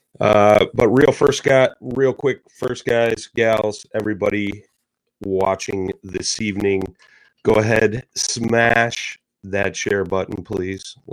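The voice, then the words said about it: Voice affected by a cold. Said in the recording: “I've been battling a cold ... Hopefully I don't lose my voice”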